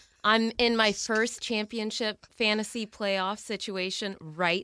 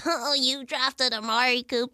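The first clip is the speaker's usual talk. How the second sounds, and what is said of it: Imitating a friend's voice. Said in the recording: “Great Kyle impression”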